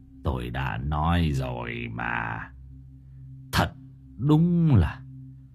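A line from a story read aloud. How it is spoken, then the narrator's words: Sighing old man. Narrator (Vietnamese): Ông cụ Mạnh thở dài nói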